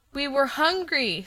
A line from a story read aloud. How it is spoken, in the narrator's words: said the boy pleadingly